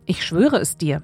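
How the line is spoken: Plain answer. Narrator (German): antwortete Abraham

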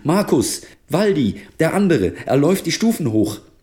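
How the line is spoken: Calling out. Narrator (German): rief sie

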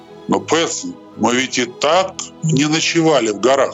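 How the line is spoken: Plain. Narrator (Russian): сказал Финдус

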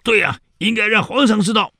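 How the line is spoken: Crowd shouting together. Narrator (Chinese): 这所有跟他陪读的这些人，还有他的老师们都喊

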